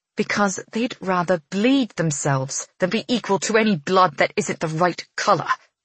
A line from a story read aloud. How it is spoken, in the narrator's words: she hisses